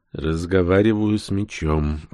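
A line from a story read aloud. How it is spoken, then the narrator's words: Sad sigh. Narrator (Russian): грустно вздохнул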